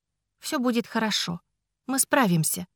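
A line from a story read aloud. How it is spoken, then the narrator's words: Gentle reminder. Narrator (Russian): мягко напомнила я Ричарду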